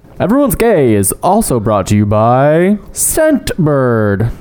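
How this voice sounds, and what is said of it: Announcer-style radio voice. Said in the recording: “Radio Voice is back. ... Too straight.”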